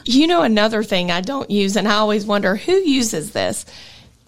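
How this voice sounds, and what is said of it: Southern US twang. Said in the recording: “my twang, I'm super southern.”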